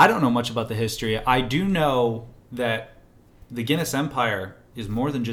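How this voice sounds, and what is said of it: Usual voice. Nothing is said of it.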